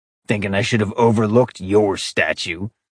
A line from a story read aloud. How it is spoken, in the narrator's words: Falcon growled in the back of his throat